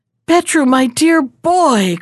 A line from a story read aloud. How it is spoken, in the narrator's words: cried the emperor, both his eyes laughing together